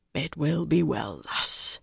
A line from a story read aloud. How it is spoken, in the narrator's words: he murmured gently